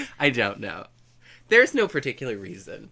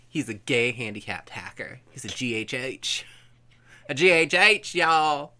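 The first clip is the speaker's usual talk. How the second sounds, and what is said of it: Put-on accent. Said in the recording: “Why the accent?”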